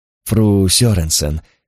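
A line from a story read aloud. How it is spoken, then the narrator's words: Soft, catlike. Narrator (Russian): покошачьи мягко произнес Карл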